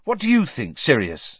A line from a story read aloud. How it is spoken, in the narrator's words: Harry said loudly